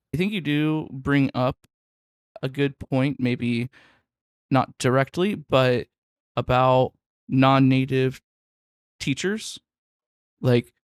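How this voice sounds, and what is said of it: Non-native English accent. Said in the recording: “my accent is not perfect, or my pronunciation is not always perfect, like, I know some of my vowel sounds mimic English a little bit too much”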